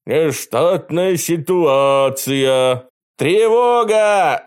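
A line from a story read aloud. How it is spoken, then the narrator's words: Shout. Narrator (Russian): закричал Костя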